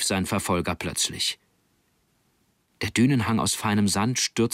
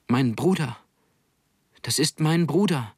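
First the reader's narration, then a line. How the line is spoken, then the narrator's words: Small one calling out. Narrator (German): rief der Kleinste der vier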